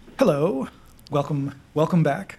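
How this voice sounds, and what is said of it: Polished radio announcer voice. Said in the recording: “That's ... radio voice, by the way. He loves to do it. ... You have a specific voice that you do for this”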